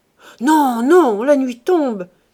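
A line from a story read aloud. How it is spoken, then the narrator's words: Exclaiming. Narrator (French): s'écria Chanteau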